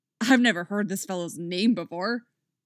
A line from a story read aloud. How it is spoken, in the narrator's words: Oliver grumbles